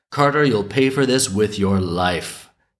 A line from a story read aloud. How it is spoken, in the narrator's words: the sparrow cried out